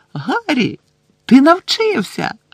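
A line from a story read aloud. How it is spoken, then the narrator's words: Delighted exclamation. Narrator (Ukrainian): захоплено вигукнула Герміона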